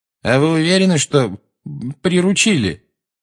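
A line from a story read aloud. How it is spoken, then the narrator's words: Very frightened question. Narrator (Russian): совсем уже испуганно спросил Малфой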